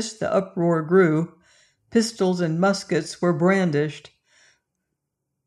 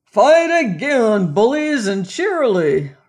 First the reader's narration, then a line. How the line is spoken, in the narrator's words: roared Resolution